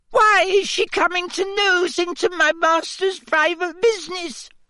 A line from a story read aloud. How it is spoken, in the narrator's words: sobbed Winky